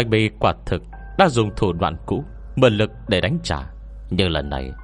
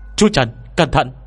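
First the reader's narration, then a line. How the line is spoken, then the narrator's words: Shouted warning. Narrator (Vietnamese): Tôi hét lên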